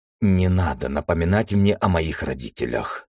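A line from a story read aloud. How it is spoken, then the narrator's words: Through gritted teeth. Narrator (Russian): сквозь зубы произнес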